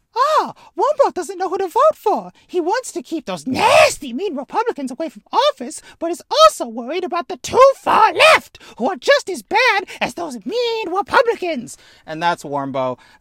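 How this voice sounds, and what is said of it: Puppet character voice. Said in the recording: “That's a really good Warmbo, actually ... I'm upset at how good my Warmbo is ... my Warmbo impression”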